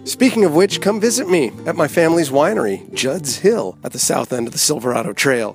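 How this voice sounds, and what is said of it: Raspy voice. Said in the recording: “You gotta excuse my raspy voice, it's a bit of allergy season here in Napa Valley”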